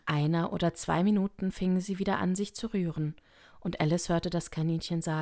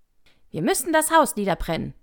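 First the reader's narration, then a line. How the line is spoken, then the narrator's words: Rabbit calling out. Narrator (German): rief das Kaninchen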